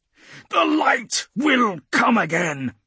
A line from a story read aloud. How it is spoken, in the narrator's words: Zidius thunders